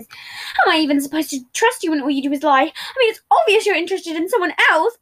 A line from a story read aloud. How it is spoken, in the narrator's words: Patton exclaimed